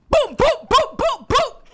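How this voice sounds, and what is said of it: Loud, shouting voice. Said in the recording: “lower your voice, please... Turn your mic down.”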